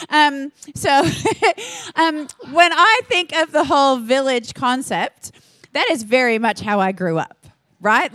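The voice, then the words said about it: Slight American accent. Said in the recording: “You know, I'm American. I'm sure you've noticed. ... Can you hear the accent? Just a little.”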